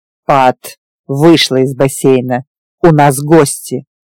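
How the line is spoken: Barked command. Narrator (Russian): рявкнул глава волчьего клана

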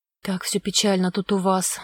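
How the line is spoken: Sighing. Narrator (Russian): вздохнула Вера

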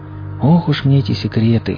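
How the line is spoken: Sigh. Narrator (Russian): вздохнул слон

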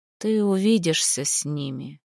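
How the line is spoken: Creaky voice. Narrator (Russian): проскрипел он

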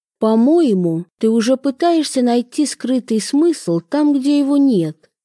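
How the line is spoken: Soft, mildly reproachful. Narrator (Russian): произнесла мягко, но одновременно с легким укором

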